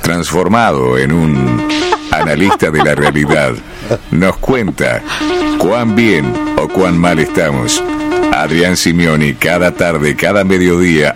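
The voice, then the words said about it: Imitates a TV documentary announcer. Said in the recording (Spanish): “Puedes hacer el locutor de la aventura del hombre”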